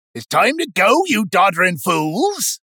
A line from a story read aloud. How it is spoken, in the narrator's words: Gilly bellowed to his patrons, but not in an angry way